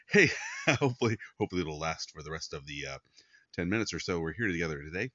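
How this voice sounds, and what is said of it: Hoarse, strained voice. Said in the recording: “I'm suddenly losing my voice.”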